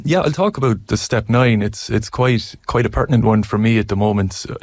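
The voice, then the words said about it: Irish accent. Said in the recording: “As you can tell from my accent, I'm Irish”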